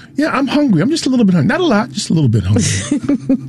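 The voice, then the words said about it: Imitates his mother's voice. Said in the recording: “do an impression of my mother”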